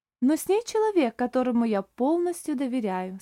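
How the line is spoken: Calm. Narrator (Russian): спокойно сказал Оливер

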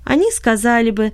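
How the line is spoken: Laughing. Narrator (Russian): засмеялась она

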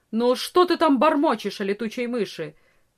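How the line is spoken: Stern question, peasant woman. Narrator (Russian): строго спросила крестьянка

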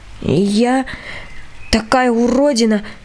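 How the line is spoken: Strained, muffled voice. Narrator (Russian): наконец выдавила я глухим голосом

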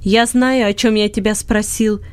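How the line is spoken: Angry shouting. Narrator (Russian): сердито кричал Бинет

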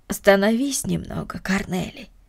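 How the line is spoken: Affectionate. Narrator (Russian): ласково сказала Марта

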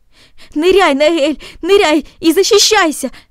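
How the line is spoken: Shouting. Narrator (Russian): закричал

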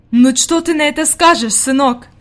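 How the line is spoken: Exclaim. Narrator (Russian): воскликнула она

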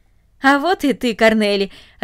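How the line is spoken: Joyful. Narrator (Russian): радостно сказал он

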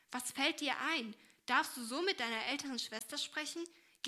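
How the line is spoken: Serious call. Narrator (German): rief diese ernst

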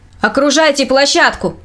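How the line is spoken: Leader shouting. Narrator (Russian): кричал предводитель вербовщиков

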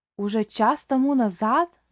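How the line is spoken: Old man exclaiming. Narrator (Russian): воскликнул старик

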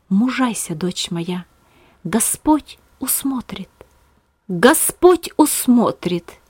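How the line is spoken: Inner whispering voice. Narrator (Russian): голос в своем сердце, шептавший

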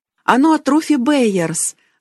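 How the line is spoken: Joyful exclamation. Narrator (Russian): Радостно воскликнула Колин

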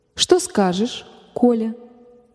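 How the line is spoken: Soft motherly question. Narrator (Russian): мягко спросила мать

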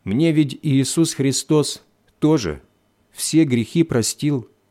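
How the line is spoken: Plain. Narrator (Russian): сказала она

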